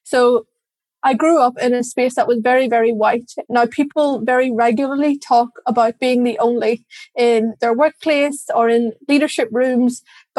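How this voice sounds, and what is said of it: Irish accent. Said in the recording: “You can probably tell by my accent, I am Irish.”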